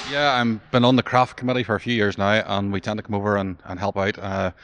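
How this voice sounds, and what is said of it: Northern Irish accent. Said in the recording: “I heard an Irish accent”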